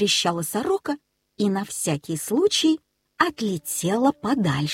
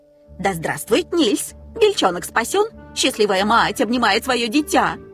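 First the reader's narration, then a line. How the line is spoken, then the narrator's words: Shouting while flying. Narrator (Russian): кричала она, перелетая с дерева на дерево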